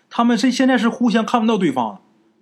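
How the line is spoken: Shouting. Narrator (Chinese): 听见这半仙叔喊

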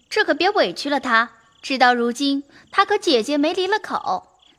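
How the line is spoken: Two laughing together. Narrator (Chinese): 袭人、晴雯都笑说

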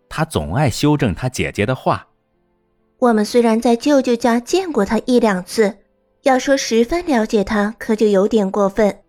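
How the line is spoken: Shouting. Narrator (Chinese): 露西嚷道

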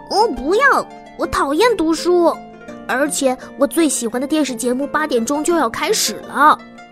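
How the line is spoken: Loud protest. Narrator (Chinese): 维克多大声抗议

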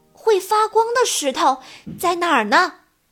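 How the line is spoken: Excited shout. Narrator (Chinese): 克斯托夫立刻停了下来，他激动地大喊

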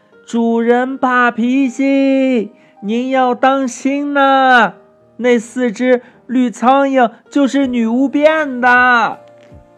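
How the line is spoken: Loud shout. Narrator (Chinese): 卢卡斯大声的喊道

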